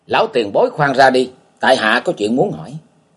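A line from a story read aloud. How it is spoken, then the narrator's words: Hurried loud call. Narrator (Vietnamese): chàng bèn vội lớn tiếng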